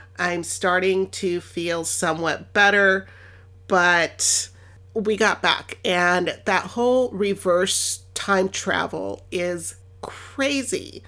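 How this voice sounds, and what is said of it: Nasal, scratchy sick voice. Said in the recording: “my voice is a little more nasally or a little more scratchy than normal”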